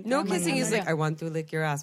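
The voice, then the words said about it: Bad put-on German accent. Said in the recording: “that's a terrible German accent.”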